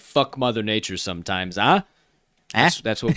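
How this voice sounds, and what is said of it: Put-on Chicago accent. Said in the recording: “got to throw in that uh, Chicago accent”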